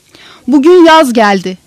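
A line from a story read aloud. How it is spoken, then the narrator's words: Joyful shout. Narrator (Turkish): diye haykırdım neşeyle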